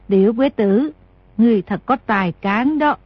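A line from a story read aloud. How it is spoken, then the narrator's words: Smiling. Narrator (Vietnamese): Thái Hậu mỉm cười nói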